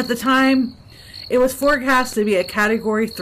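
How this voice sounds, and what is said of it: Usual voice. Nothing is said of it.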